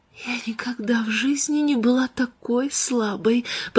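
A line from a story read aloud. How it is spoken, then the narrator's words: Weak whisper. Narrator (Russian): прошептала Ленор Уэстон своему сыну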